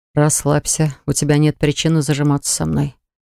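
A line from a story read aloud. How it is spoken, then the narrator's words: Mumble. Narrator (Russian): пробормотал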